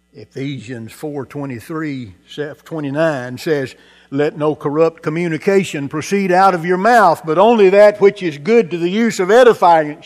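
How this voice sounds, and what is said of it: Mock preacher voice. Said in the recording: “in my best wannabe preacher voice”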